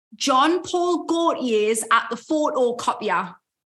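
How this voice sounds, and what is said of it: Attempted Geordie accent. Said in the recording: “to get people into their Geordie accent”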